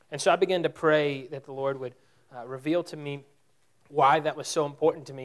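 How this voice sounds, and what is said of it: Loud speaking voice. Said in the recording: “I'm talking too loud.”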